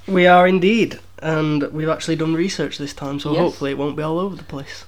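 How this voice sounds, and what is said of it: Voice of someone with a cold. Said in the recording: “I've got a bit of a cold ... you've got a bit of a cold today”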